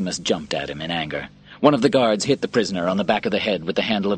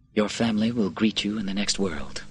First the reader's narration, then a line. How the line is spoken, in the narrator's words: Quintus said quietly